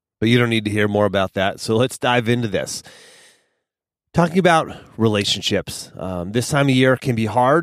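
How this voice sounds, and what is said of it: Slightly nasal, congested voice. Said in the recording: “I sound a little nasally ... I have a little bit of an allergy attack going on right now”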